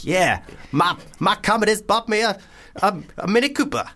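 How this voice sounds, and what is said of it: Put-on white rapper-style accent. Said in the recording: “what accent you're doing there ... It's kind of like trying to be a rapper, but also trying not to be racist in any form ... It's more white than I am.”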